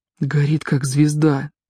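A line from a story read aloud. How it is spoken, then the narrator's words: Quiet. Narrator (Russian): тихо сказал Паки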